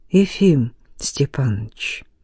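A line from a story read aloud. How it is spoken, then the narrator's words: Slow speech. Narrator (Russian): медленно заговорил Назаров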